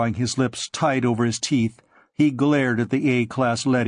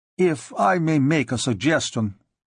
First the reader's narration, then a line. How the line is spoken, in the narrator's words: said another Russian uneasily